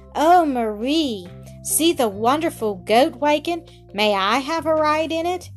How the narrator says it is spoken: a little boy cried

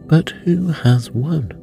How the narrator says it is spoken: panting and asking

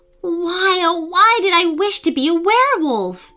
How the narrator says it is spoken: she wailed

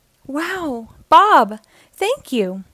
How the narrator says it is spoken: cried

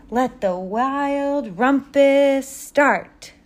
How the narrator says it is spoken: cried Max

